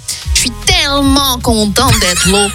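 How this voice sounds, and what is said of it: Poor attempt at Québécois accent. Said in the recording (French): “L'accent québécois ... Là, on est parti un peu en Asie avec ... hein, sur le coup. Hein. Ça va pas du tout.”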